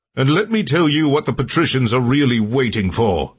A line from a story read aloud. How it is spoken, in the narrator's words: Tiberius shouted